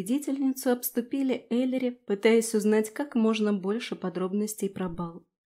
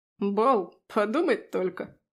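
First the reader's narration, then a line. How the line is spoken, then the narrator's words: Scornful snort. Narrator (Russian): фыркнул Фрей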